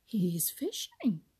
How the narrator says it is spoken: exclaimed Billy Mink

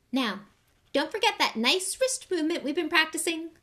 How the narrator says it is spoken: squeaked Professor Flitwick

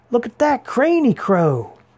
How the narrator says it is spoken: shouted Massey

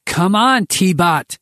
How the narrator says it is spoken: Henry shouted through the channel

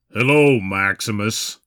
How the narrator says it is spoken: he said through gritted teeth

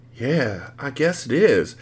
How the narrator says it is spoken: I whispered in amazement

